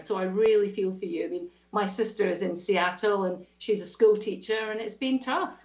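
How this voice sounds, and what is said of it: Scottish accent. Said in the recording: “you don't sound so Australian. That lovely brogue there... I'm detecting a wee bit of Scotland when you talk... so this is a Scottish accent”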